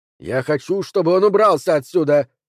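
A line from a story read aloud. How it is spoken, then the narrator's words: Barking. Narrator (Russian): рявкнул Джо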